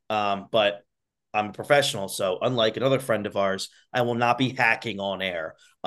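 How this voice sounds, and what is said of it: Congested voice from a cold. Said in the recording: “I have a cold, so I have an awful post-nasal drip ... the pain that's sitting in the back of my throat”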